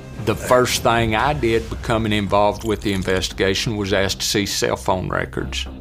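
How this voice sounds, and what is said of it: Southern Texas accent. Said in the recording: “You know I love a good accent. ... I love a southern accent.”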